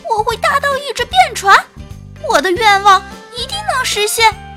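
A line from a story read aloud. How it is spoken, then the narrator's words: Sighing, then loud shout. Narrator (Chinese): 小海螺却直叹气，最后忍不住大声喊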